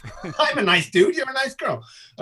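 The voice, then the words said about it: Put-on Chicago accent. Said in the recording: “You got to do it with the Chicago accent.”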